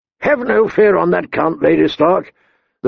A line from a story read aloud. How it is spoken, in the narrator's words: the Great John told her in his bass rumble